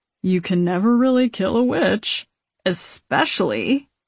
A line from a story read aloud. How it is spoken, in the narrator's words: chuckles